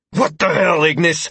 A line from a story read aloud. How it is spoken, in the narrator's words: I barked at the half-elf, his calm and collected tone causing my anger to soar to new heights